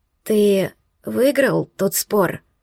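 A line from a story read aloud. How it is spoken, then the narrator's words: Young witch, hoarse. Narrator (Russian): В голосе ведьмочки появились хриплые нотки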